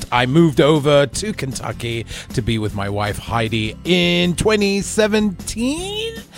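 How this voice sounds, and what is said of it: British accent. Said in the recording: “This is a real British accent.”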